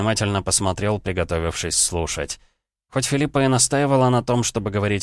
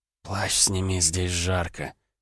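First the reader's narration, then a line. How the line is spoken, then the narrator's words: Whisper. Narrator (Russian): он прошептал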